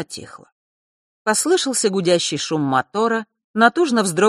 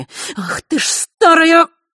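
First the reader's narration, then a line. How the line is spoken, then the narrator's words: Angry hiss. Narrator (Russian): прошипела Елена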